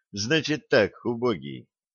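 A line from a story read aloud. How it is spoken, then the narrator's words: Gentle. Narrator (Russian): ласково сказал Питер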